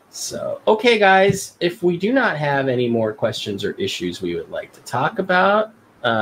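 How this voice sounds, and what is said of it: Usual voice. Nothing is said of it.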